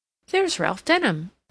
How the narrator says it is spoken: she exclaimed

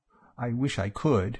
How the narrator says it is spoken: she murmured

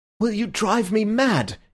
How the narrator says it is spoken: he cried

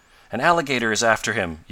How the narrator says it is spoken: yelled Ned

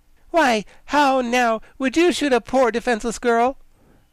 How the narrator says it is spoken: General Ginger said reproachfully

